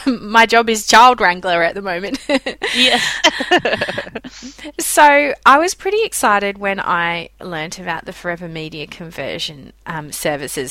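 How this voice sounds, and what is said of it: Australian accent. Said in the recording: “as everyone can probably tell from my voice, I'm not a US resident. I'm in Australia”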